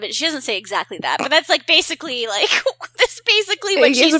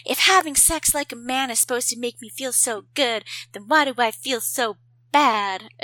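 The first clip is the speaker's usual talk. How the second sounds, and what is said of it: Impression of Carrie Bradshaw. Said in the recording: “It was a pretty good impression. It was good.”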